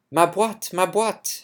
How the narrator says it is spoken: she exclaimed

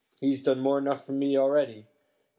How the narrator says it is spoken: groaned Hagrid

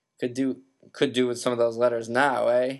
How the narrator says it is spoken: He said cheerfully

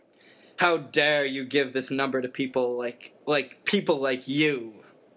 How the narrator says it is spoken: Uncle Vernon had roared, spraying Harry with spit

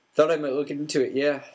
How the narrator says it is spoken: said Hagrid, gruffly

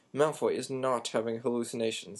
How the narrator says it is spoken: snarled Snape

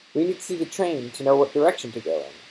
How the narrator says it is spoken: said Ron

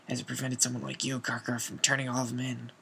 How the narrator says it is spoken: muttered Moody

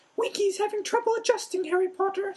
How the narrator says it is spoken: squeaked Dobby confidentially

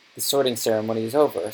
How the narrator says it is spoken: said Professor McGonagall

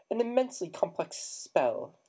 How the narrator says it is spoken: he said squeakily

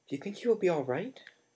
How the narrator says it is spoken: asked Hermione nervously

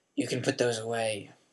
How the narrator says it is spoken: he growled

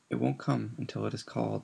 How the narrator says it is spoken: said Riddle calmly

